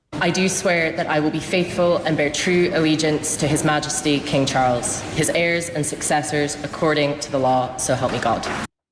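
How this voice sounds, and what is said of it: Scottish accent. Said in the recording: “she had a Scottish accent there”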